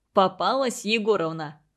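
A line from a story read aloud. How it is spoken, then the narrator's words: Smirking snort. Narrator (Russian): хмыкнул Игорь Петрович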